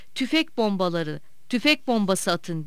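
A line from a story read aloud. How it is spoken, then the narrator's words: Shouting. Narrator (Turkish): diye bağırıyordu Akbaba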